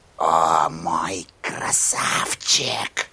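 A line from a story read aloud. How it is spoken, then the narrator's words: Whispered. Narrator (Russian): прошептала она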